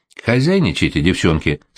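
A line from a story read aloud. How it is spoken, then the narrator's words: Gloomy. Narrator (Russian): сказала мрачно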